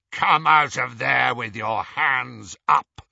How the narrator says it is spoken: came a rasping voice through the darkness

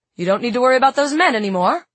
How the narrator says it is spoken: said Tom, almost cheerfully

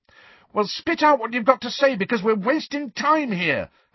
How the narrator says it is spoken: Harry shouted

